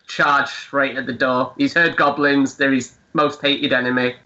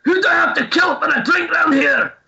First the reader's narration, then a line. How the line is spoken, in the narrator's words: Flynn sees that door and he just shouts